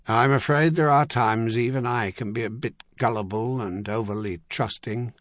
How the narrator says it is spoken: Corris said with a sigh

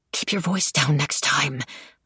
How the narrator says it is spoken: I hissed

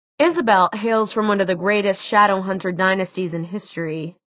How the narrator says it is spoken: Alex said dryly

